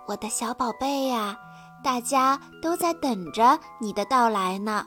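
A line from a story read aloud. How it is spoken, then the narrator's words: Soft, tender. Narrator (Chinese): 妈妈轻声地对小宝宝说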